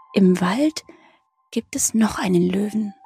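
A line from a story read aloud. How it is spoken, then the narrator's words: Quiet. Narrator (German): sagte Hoppel leise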